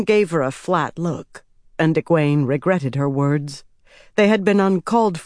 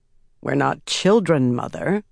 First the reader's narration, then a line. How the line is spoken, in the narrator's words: Swan said dryly